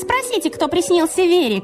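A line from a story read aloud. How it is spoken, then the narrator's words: Shouting. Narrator (Russian): крикнула Лёля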